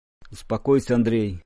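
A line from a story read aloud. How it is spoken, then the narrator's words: Reproachful old man's mutter. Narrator (Russian): укоризненно пробормотал старик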